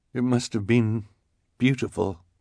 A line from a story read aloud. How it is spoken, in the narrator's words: the sweated scout said in a quivering voice